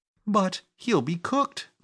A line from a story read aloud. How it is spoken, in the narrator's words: cried Phyllis, open-eyed